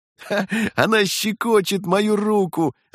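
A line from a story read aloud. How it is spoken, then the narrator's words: Laughing. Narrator (Russian): засмеялся второй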